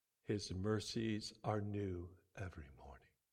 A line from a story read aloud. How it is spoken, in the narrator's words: whisper of God